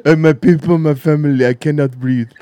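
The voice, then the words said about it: Put-on Somali accent. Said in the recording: “he'd have a Somali accent”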